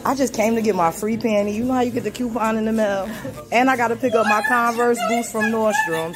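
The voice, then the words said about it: New York or New Jersey accent. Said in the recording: “This is clearly a New York or New Jersey accent.”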